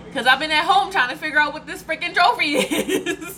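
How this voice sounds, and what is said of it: Loud, yelling voice. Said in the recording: “sorry if I'm yelling... I've been trying to work on my volume lately... It's been pretty high for like a week”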